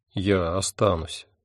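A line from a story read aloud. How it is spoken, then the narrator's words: Soft. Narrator (Russian): мягко сказал я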